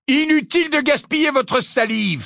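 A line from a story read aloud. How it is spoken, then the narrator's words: Exclaiming. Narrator (French): s'écria Harry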